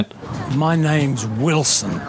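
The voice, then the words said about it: British accent. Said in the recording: “the British accent.”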